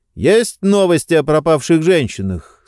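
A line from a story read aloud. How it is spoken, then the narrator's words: Loud, over machine noise. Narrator (Russian): спросил он громко, перекрикивая кофемашину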